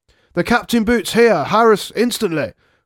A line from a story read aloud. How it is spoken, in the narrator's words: cried the sergeant